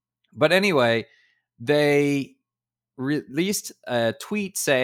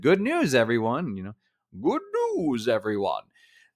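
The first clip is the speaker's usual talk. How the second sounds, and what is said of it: Poor impression of a cartoon character. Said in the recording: “that was a terrible Professor Farnsworth. I'm sorry for that impression.”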